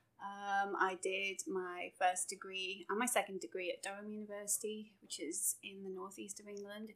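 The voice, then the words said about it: English accent. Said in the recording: “obviously I'm from England. You can probably tell by the accent.”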